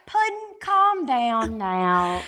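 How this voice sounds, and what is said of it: Imitates another person's podunk accent. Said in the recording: “your podunk accent”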